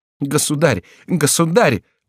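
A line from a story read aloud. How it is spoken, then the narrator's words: Exclaimed. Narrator (Russian): воскликнула Маргарита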